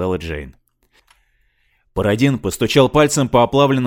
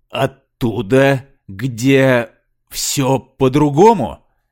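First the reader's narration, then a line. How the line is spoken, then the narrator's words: Slow question. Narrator (Russian): медленно спросил Пародин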